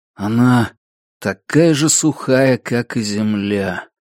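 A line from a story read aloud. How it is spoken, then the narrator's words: Dejected, breathy. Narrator (Russian): упавшим голосом выдохнул Олвин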